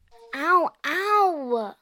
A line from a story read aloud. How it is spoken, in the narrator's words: Emery whined